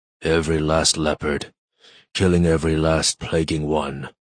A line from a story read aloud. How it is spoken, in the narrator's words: I heard him say to himself, a slurry growl